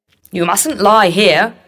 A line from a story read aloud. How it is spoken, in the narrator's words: shouted the watchman